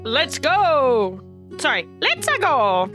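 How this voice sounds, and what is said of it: Mario video game character voice. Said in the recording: “What was that voice? ... It's Mario”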